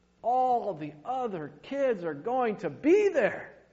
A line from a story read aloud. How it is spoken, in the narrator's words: he pleaded